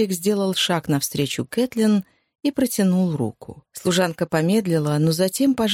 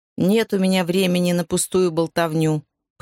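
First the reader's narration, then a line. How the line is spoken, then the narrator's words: Grumble. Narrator (Russian): проворчала она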